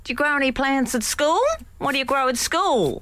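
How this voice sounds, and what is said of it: Put-on Australian accent. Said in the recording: “I am allowed to do an Antipodean accent?”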